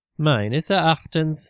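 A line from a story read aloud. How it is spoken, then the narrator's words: Forced calm. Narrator (German): sagte Ali, sichtlich bemüht, ruhig und besonnen zu wirken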